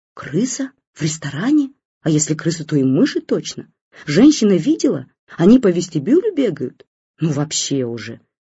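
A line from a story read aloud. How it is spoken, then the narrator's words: Crowd whispering. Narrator (Russian): зашептались люди в очереди в гардеробную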